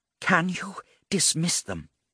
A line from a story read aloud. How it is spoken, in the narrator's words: Agela whispered